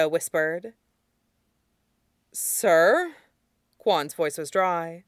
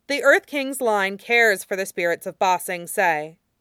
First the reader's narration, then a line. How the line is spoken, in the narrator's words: Kue said firmly